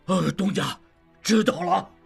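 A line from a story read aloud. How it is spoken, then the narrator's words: Loud. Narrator (Chinese): 长顺大声说道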